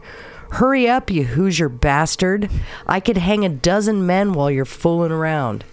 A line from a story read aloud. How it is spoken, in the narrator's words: spit in the executioner's face and snarled